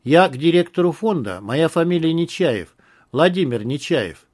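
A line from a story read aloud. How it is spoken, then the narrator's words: Calm. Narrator (Russian): спокойно произнес Вадим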